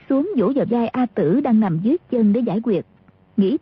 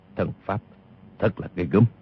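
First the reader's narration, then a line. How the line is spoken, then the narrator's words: Muttering. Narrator (Vietnamese): Tiêu Phong lẩm bẩm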